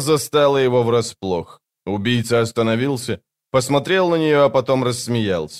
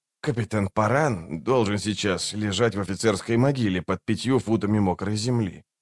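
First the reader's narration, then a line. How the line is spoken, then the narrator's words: Quiet. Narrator (Russian): тихо проговорил он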